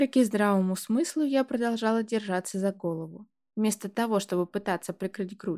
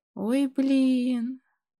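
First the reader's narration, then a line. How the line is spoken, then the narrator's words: Sobbing. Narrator (Russian): всхлипнула я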